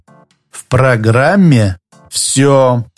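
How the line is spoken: Slow, syllable by syllable. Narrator (Russian): медленно, почти по слогам, повторил тот

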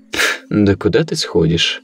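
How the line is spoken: Good-natured snort. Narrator (Russian): беззлобно фыркнул Стас

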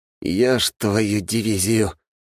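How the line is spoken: Surprised exhale over headset. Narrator (Russian): выдохнул в наушники Разумовский, который, конечно, такого не ожидал

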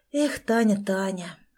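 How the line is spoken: Regretful exhale. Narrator (Russian): выдохнул Сережа с сожалением

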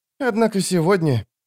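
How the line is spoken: Sighing. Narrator (Russian): вздохнула она

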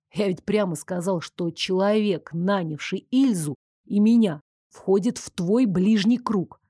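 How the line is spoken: Angry hissing whisper. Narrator (Russian): продолжил выговаривать мне злым свистящим шепотом Нико

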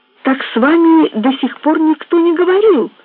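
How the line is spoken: Exclaimed. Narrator (Russian): воскликнул Мейсон

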